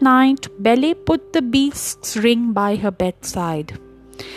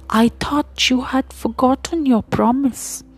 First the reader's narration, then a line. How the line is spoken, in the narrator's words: he whispered